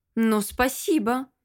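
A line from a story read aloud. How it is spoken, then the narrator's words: Sarcastic interruption. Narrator (Russian): язвительно перебила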